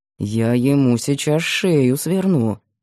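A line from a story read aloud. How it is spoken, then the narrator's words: Through clenched teeth. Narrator (Russian): сквозь зубы процедил Бабкин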